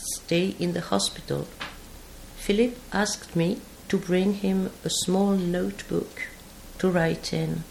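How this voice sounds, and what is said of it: English spoken with a foreign accent. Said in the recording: “I'll try to say in English a few words ... I ask you to excuse my accent.”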